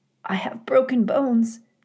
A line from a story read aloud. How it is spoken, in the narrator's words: she rasped